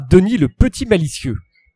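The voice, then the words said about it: Put-on Québécois accent sounding Belgian. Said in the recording (French): “l'accent québécois ... c'est belge ... J'étais sûr qu'elle ferait l'accent belge. Mais c'est pas grave, ça ira très bien ... C'est bien, ça rend bien ... L'accent belge québécois.”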